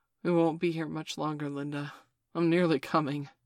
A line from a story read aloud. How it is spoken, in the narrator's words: she replied breathlessly